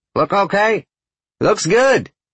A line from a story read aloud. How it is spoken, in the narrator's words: Felix yells